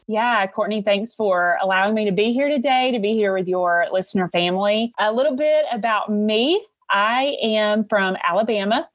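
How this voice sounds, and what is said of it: Southern American accent. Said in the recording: “If you can hear that Southern accent.”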